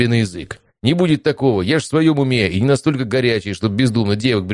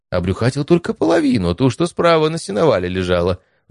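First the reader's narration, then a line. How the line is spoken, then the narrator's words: Loud guffaw. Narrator (Russian): в голос захохотал Стас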